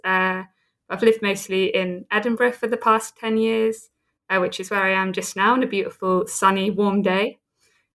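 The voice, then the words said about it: British English accent. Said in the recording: “you can tell from the accent, I'm a Brit. I'm from the south coast of England”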